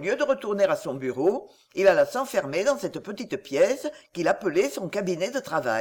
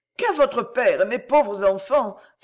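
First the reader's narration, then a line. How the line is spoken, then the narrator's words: Cried out. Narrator (French): s'écria Madame Favoral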